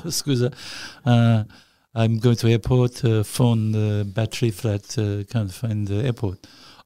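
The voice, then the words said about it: Attempted Italian accent. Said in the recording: “excuse my accent. Excuse, it's Italian. Oh, I'm trying for it. ... Is it Italian? ... Does that sound Italian?”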